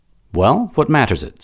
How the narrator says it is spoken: said Matho

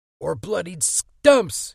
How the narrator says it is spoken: Eddie screamed

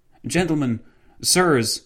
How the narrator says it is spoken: the policeman exclaimed

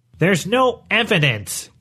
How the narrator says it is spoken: Quintos said, his voice rising

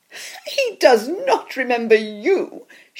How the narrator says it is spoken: she laughed

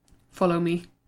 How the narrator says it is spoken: muttered Pete

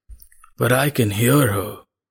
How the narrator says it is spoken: rasped the man

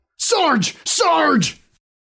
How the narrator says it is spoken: Cold sweat washed over him as he yelled

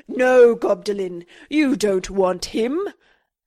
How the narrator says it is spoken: He let out a mighty goblin roar, crying

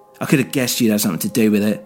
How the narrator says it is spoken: he shouted

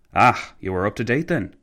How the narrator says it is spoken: McCallville sighed

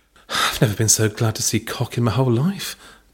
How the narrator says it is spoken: Belinda breathed under her tongue

